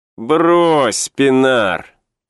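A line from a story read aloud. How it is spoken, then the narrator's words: Grumbling. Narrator (Russian): проворчал кто-то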